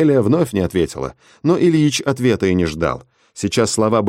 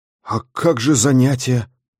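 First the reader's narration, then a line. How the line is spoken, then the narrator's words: Confused question. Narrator (Russian): растерянно спросил Тошка Стасов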